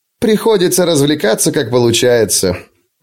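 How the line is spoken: Burst of laughter. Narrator (Russian): он расхохотался

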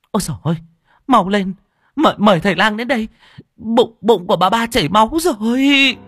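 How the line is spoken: Panicked, trembling shout. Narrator (Vietnamese): Bà hai run rẩy chạy tới, gương mặt của bà thất thần cắt không còn giọt máu, quay ra hét lên

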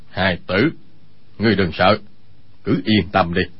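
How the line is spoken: Serious, lowered voice. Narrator (Vietnamese): vẻ tươi cười lập tức thu hết lại, hạ giọng nói

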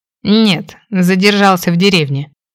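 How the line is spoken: Reluctant snort. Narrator (Russian): хмыкнул, нехотя добавив

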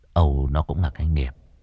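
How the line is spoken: Sighing. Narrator (Vietnamese): Cậu thở dài

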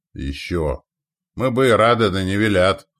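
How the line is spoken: Grumbled under breath. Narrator (Russian): проворчал себе под нос Елизар

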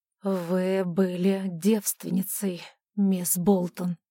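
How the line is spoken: Forced out, halting. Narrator (Russian): наконец выдавил он

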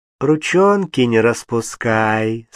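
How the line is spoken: Sweet honeyed voice. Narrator (Russian): сказала Анна медовым голоском

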